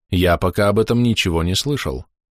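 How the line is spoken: Calm. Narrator (Russian): спокойно произнес

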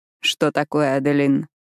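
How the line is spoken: Grim. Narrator (Russian): мрачно спрашивает он

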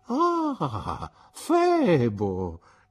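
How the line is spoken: Exclaiming. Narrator (Italian): esclamò Mr

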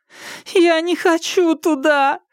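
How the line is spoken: Moaning. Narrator (Russian): простонала та

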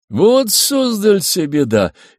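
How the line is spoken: Cheerful shout. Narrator (Russian): весело крикнул Суворов

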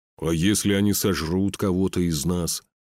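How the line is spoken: Displeased grumble. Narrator (Russian): недовольно проворчал Фюн

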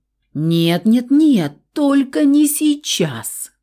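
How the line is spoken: Moaning. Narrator (Russian): простонал Саня

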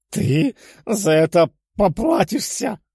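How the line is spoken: Growled. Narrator (Russian): прорычал

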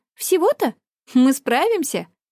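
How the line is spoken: Laughing. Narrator (Russian): Флодана рассмеялась

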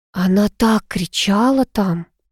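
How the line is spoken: Whisper. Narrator (Russian): шепнула Эмилия

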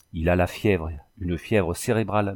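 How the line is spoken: Girl's murmur. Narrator (French): murmura la jeune fille

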